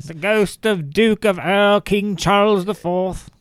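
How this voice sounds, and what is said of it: Bad put-on English accent. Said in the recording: “There's a horrible fucking English accent.”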